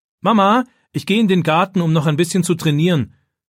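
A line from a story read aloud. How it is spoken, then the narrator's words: Calling toward kitchen. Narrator (German): ruft David in Richtung Küche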